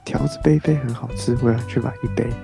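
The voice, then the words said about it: Quiet muttered line. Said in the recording (Chinese): “小声”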